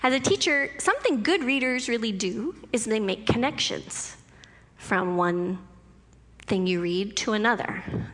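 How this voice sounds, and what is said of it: Teacher voice. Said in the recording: “I'm speaking with my teacher voice right now”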